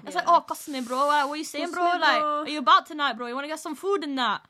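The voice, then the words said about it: Put-on Bradford roadman accent. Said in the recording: “Molly's ideal guy exists somewhere in Bradford ... I only heard the accent recently and it's actually like, whoa ... You sound like that anyway”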